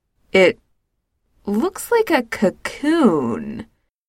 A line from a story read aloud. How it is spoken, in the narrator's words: George says slowly